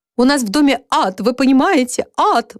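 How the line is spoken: Exclaiming while sobbing. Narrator (Russian): восклицала женщина, не переставая всхлипывать

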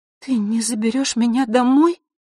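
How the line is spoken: Bewildered, breathless whisper. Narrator (Russian): растерянно прошептала она, часто дыша

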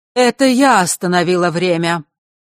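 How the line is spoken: Clear, strong voice. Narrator (Russian): произнесла она чистым и сильным голосом, никак не вязавшимся с ее дряхлым видом

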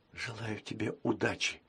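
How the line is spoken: Quiet. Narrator (Russian): тихо сказала Василиса

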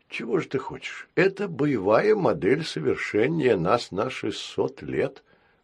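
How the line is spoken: Sad. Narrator (Russian): грустно сказал Баюн

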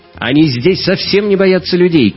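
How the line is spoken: Shout. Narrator (Russian): крикнула Мария

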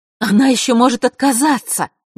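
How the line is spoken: Fervent exclamation. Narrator (Russian): горячо воскликнула повелительница фей

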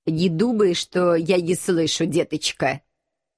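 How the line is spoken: Menacing, muffled from below. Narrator (Russian): Грозно отозвался Пушок из-под кресла

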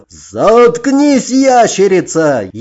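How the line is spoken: Furious roar. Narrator (Russian): яростно взревел рыцарь

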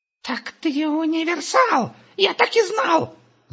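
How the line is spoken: Excited shout. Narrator (Russian): закричал Густав

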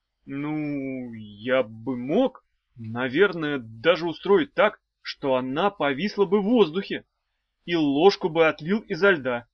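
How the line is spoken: Said uncertainly. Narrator (Russian): сказал неуверенно

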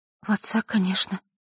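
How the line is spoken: Smiling through tears. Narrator (Russian): улыбнулась Василиса сквозь слезы

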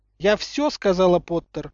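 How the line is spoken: Curt, categorical. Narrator (Russian): отрезала МакГонагал непререкаемым тоном

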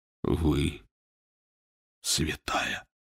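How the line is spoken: Whisper. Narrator (Russian): прошептал Фандорин

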